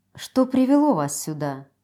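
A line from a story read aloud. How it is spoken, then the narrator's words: Quiet interruption. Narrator (Russian): прервала я наблюдение принца негромким голосом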